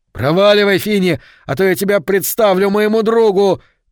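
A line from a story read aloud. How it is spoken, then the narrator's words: Shouted. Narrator (Russian): крикнул Говард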